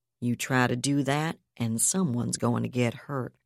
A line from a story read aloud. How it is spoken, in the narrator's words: the strike leader said flatly